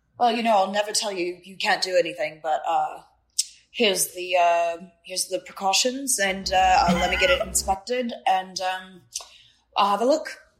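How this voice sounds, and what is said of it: Badly done imitated accent. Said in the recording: “this is like a terrible accent, so don't judge me for this”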